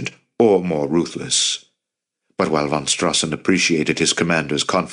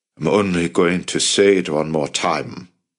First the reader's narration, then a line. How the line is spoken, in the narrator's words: von Strassen growled